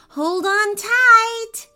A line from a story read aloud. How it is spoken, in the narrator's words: Ava shouted